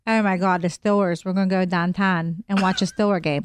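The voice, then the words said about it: Put-on Pittsburgh accent. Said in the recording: “Pittsburgh, number 43... What is that accent?”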